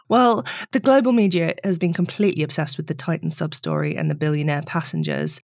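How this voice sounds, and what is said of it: Congested voice from a cold. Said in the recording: “my voice sounds a little bit weird at the moment, it's because I've had a cold all week”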